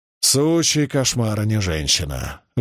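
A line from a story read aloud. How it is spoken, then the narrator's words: Exhaled exclamation. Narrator (Russian): выдохнул Маркус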